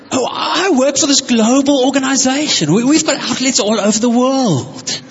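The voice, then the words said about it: Put-on English accent. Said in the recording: “He sounded a bit like Mr. Bean ... he's got this accent.”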